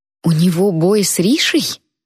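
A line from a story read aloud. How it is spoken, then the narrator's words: Amazed exclamation. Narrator (Russian): изумленно воскликнула Наён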